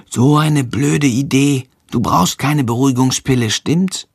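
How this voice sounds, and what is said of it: Whispering. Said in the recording (German): “flüstert”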